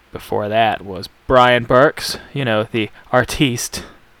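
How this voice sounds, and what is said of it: Usual voice. Nothing is said of it.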